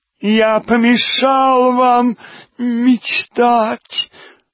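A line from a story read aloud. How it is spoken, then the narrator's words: Nasal whine. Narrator (Russian): загнусавил снова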